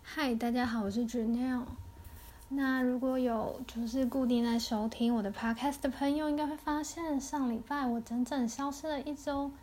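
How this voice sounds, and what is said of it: Quieter, slightly odd-sounding voice. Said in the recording (Chinese): “我的声音怪怪的，就是好像比较小声”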